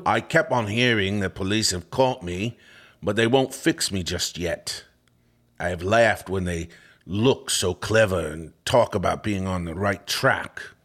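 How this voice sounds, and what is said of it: Put-on Cockney accent. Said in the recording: “in his finest Whitechapel-esque accent ... do a Cockney accent ... There we go.”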